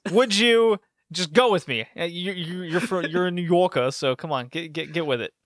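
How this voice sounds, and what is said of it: Bad put-on New York accent. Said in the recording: “That's a terrible New York accent.”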